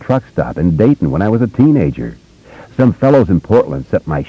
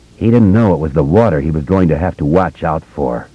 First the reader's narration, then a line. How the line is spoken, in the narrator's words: Don Haggerty said bitterly